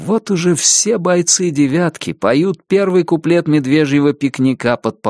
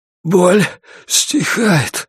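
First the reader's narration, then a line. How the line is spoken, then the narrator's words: Breathy exhale. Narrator (Russian): выдохнул Джеймисон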